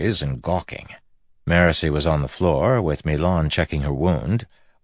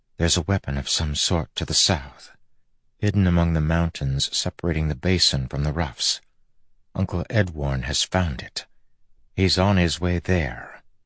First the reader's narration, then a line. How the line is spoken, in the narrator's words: she said softly